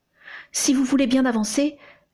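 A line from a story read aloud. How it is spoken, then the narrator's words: Timid request. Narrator (French): lui demanda timidement son interlocuteur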